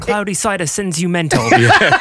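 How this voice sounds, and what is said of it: Put-on British accent. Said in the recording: “try my British accent”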